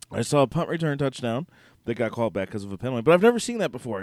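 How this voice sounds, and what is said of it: Slightly hoarse voice. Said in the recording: “I'm a little hoarse tonight”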